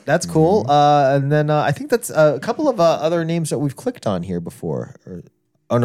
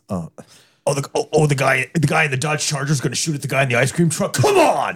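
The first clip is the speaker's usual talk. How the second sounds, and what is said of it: Gruff Will Arnett impression. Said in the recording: “Will Arnett's got that real gruff. He can do that real gruff voice ... You pretty much nailed it. Who said ... wasn't good at impressions?”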